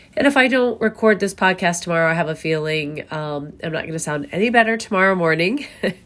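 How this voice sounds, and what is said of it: Sick, rough-sounding voice. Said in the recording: “I sound horrible... my voice is like driving you crazy... I am a little bit under the weather”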